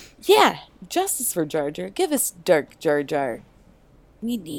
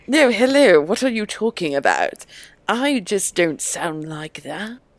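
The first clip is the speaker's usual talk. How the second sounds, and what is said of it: Put-on British accent. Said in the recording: “He starts having a British accent like all the Imperials are.”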